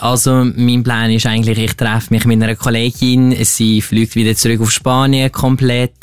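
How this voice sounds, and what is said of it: Speaks with a regional German dialect. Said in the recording (German): “was er für einen Dialekt hat”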